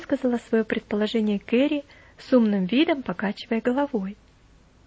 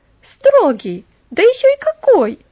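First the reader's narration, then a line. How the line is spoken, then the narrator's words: Exclamation. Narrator (Russian): воскликнула Мэри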